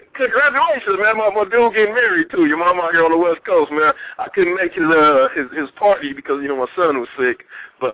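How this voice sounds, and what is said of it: Very fast speech. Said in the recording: “You said that so fast.”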